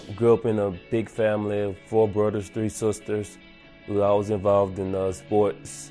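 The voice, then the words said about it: Small-town country accent. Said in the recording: “I come from a small town, country town. That's, you probably could tell my accent.”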